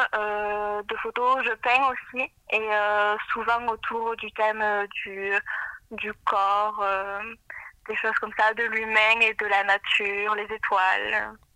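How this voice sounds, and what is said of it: Southern French accent. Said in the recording (French): “l'accent du sud. Hein. On voit que tu es de Tarbes.”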